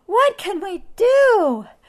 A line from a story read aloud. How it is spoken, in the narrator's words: the noisy, nasty nuisance grew till the villagers cried